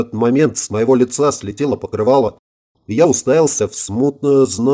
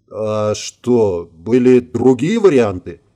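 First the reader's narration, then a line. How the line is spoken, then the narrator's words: Confused, struggling to articulate. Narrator (Russian): Более-менее справляясь с артикуляцией, растерянно спросил я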